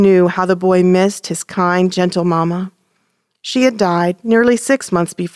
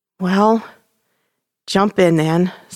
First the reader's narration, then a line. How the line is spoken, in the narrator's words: said his father with a sigh